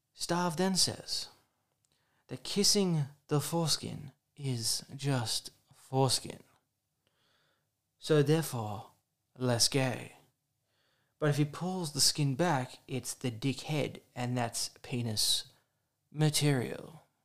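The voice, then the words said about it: Nature documentary narrator voice. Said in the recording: “I should do that in my David Attenborough. I'll try my David Attenborough voice.”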